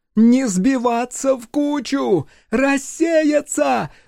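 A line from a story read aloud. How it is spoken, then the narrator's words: Shouting, voice breaking. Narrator (Russian): закричала она срывающимся голосом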